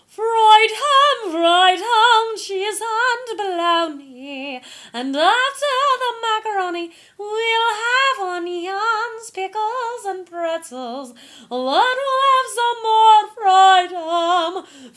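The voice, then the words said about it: Exaggerated operatic singing voice. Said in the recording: “Opera accent, a whole lot worse.”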